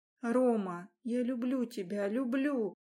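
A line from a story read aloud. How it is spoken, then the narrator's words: Whisper. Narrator (Russian): Шептала я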